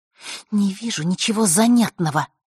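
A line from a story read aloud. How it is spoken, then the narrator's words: Curt reply through teeth. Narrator (Russian): процедила она в ответ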